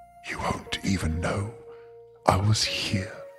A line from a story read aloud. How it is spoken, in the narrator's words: the figure whispered